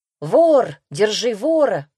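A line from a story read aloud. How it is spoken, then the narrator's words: Crowd shouting. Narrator (Russian): закричали вокруг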